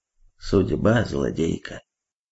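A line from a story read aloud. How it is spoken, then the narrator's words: Dull muttering. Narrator (Russian): Мускулюс глухо пробормотал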